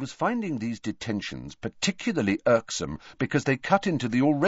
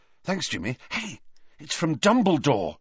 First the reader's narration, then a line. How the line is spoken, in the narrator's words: said Harry excitedly